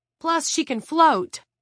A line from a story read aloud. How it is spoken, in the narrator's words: Jared blurted